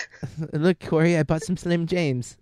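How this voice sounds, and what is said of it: Bad put-on British accent. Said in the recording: “my horrible British accent.”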